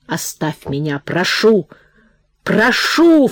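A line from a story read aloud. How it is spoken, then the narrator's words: Wheezing in a fit. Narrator (Russian): в спазме припадка прохрипел Прохор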